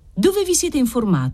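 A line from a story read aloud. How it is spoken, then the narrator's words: Yelled question. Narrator (Italian): domandò urlando Trifari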